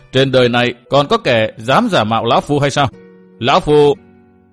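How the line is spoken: Loud laughing. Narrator (Vietnamese): Huyết đồ nhân ma Kỳ Bạch cười to

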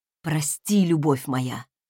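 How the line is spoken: Passionate whisper. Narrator (Russian): горячо зашептал он

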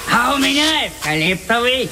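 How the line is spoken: Shouting. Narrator (Russian): кричал кто-то

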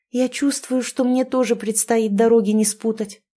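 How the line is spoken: Plain. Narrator (Russian): сказала Рада

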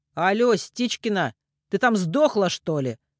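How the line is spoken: Harsh bark. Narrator (Russian): рявкнул он

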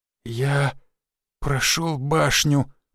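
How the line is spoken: Awed whisper. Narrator (Russian): прошептал он, боясь прикоснуться к карте и лишь любуясь ею

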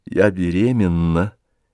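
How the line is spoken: Quiet and slow. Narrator (Russian): сказала она тихо и медленно

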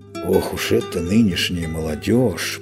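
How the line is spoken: Grumbling. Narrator (Russian): проворчал Мышавур

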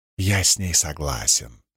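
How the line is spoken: Whisper. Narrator (Russian): прошептал он

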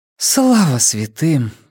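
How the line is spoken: Breathless exhale. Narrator (Russian): выдохнула Нина

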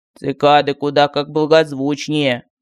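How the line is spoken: Displeased mutter. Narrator (Russian): недовольно пробурчал Мар

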